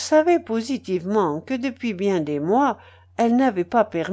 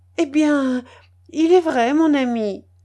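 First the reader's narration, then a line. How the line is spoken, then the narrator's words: Sad, downcast. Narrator (French): dit Mathilde en baissant les yeux tristement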